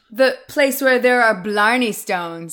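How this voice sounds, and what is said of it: Put-on Irish accent. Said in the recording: “I'm just trying to do my accent. ... You got French at the end. ... I was a little Jamaican.”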